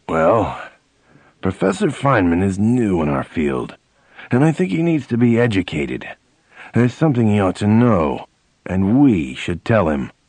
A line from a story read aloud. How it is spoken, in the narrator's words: Professor Anziger said in a dour voice